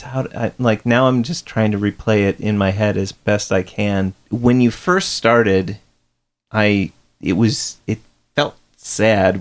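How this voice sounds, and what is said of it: Midwestern American accent. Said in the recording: “Good old Midwestern accent does that again”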